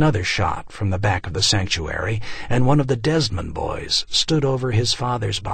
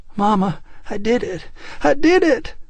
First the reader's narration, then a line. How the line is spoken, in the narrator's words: he cried